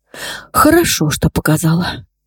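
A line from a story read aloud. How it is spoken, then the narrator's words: Muffled, hollow voice. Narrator (Russian): глухо проговорила Марго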